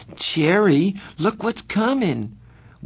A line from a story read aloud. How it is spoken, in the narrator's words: Marcia suddenly gasped